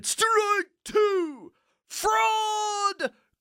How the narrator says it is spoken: cried the maddened thousands

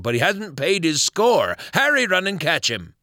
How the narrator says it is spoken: cried Silver

